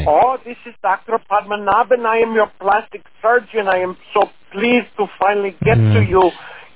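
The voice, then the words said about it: Comedic put-on foreign accent. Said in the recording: “About your accent.”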